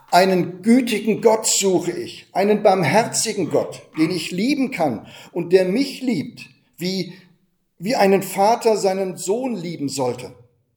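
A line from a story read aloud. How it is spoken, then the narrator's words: Young monk suddenly calling out. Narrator (German): der junge Mönch rief plötzlich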